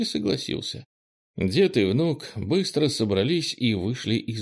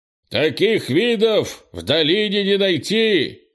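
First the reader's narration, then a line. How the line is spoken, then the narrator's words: Shouted while smiling. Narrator (Russian): крикнул Крис, не скрывая улыбку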